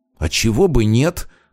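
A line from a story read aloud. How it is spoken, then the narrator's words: Angry grimacing retort. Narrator (Russian): зло скривился он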